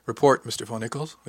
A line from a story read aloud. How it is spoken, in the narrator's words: said evenly